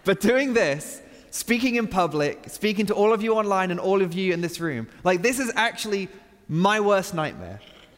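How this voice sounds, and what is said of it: Speaks with a noticeable accent. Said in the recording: “I have an accent that makes you think that I'm smarter than I really am”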